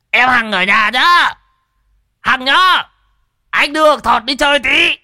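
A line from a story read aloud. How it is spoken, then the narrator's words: Strained loud shout. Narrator (Vietnamese): nhị già tự nhiên nghẹn cổ gào to lên với vợ lão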